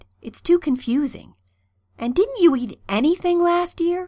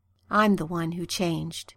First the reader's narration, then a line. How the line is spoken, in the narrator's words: Arthur said softly